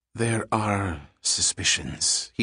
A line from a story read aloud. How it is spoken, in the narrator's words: he said in a low voice